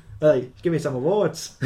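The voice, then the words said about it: Put-on Australian accent. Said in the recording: “That's an Australian accent for me.”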